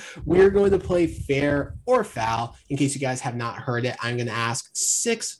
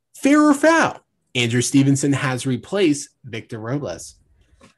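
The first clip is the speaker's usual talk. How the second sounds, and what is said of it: Game show host voice. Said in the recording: “game show voice”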